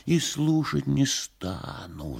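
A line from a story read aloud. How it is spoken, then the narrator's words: Whisper right into ear. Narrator (Russian): зашептал в самое ухо его Коровьев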